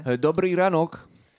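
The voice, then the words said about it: Put-on Eastern accent. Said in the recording (Polish): “tym wschodnim akcentem”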